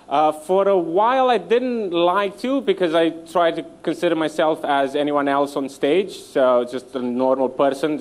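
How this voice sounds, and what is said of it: Romanian-accented English. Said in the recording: “people hear my accent and immediately they go, "Where is that from?" ... I'm Romanian”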